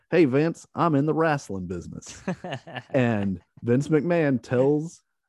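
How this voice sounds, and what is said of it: Exaggerated Southern accent imitation. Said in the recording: “I'm going to do a terrible Southern accent. This is Ted Turner's. This is the way everyone says Ted Turner talks.”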